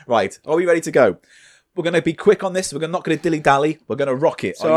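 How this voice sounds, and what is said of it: Usual voice. Nothing is said of it.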